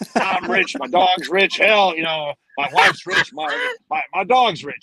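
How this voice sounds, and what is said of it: Impression of CHL. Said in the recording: “CHL was one of my favorites. My little boy Chuck always does that impersonation.”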